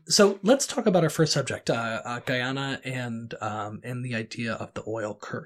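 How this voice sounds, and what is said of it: Scratchy voice from a cold. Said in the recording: “I have a little bit of a cold, so that's why I sound a little scratchy over here.”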